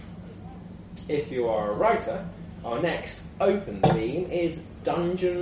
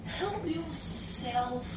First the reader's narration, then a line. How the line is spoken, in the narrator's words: I mumbled pitifully from under the duvet